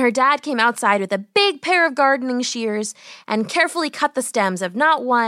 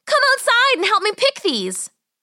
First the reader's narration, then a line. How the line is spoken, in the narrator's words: she yelled